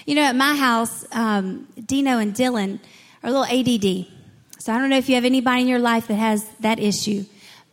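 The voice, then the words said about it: Southern accent. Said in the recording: “my little southern accent voice”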